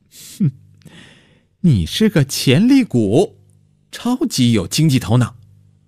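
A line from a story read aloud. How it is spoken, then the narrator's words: Mysterious smiling. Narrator (Chinese): 程小鱼神秘地笑着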